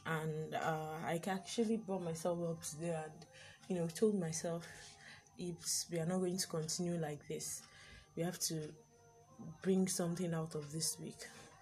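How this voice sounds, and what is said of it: Lazy, low-energy voice. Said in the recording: “I'm sure you can hear the laziness in my voice.”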